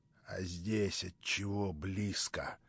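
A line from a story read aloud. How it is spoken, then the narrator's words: Rough, gleeful question. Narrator (Russian): грубо спросил он, как бы обрадовавшись возражению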